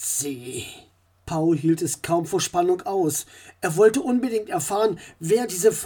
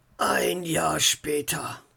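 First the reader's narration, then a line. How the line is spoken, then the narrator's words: Murmuring. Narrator (German): murmelte er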